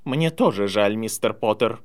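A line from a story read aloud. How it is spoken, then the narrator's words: Stern. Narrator (Russian): строго сказала она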